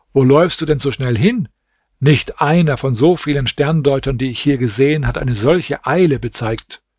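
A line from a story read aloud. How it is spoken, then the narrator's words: Servant calling out. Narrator (German): Der Diener rief ihm zu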